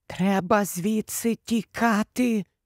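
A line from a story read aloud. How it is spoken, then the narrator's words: Whisper. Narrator (Ukrainian): прошепотіла Герміона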